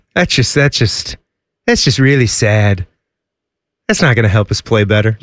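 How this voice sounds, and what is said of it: Impression of Trump or Garth. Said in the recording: “What impersonation was that? ... a little Trumpy. ... I was going with Garth from Wayne's World.”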